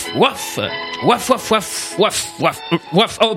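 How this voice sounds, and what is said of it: Imitates a dog barking. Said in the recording (French): “pardonnez-moi hein, pour mon accent, hein. Je vais lire en chien.”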